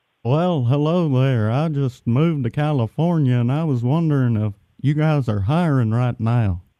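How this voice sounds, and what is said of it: Hank Hill cartoon voice impression. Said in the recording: “Are you doing a Hank Hill impression? ... That's actually a pretty good impression ... you're pretty good, but it's not the best ever.”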